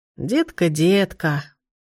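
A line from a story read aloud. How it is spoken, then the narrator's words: Sad smiling voice. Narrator (Russian): грустно улыбнулась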